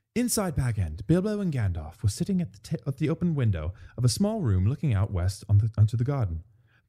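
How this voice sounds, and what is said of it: Reading aloud in a put-on accent. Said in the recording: “Should I do it in an accent? ... Yeah, read it. Yeah, read it in the accent.”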